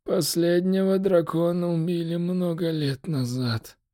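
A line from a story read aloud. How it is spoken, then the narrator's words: Hopeless, doomed exhale. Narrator (Russian): выдохнул Техред с обреченной безнадежностью в голосе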